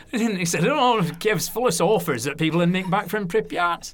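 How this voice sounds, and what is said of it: Put-on Lancashire accent. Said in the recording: “So it's my Lancashire accent there. ... Lancashire, that's me. I was at school in Lancashire, and they all talk like that.”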